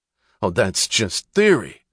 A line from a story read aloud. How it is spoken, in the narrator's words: snapped Mr